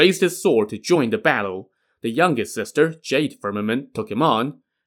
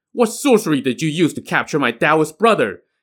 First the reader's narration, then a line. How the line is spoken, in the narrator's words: Yang Jian's comrade Jin Zha shouted